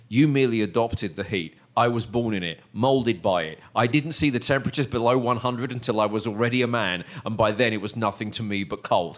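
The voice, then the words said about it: Imitates a film villain's voice. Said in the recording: “in a Bane voice”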